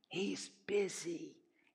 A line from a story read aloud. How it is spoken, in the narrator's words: the little boy whispered